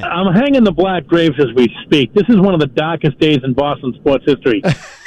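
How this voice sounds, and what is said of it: Boston accent. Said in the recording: “these guys calling Boston radio have a cool accent.”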